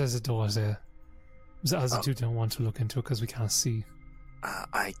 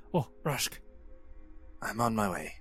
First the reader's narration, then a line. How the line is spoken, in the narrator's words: he'll whisper